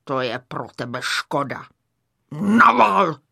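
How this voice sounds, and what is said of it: Raspy gruff character voice. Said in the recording (Czech): “ozval se chraplavý hlas”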